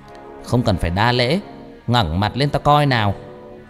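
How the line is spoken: Old woman's shrill laughing voice. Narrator (Vietnamese): Bà lão này cười lớn, bà ta nói bằng một cái giọng lanh lảnh

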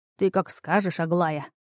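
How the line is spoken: Old man's habitual snort. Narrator (Russian): привычно фыркнул старый целитель

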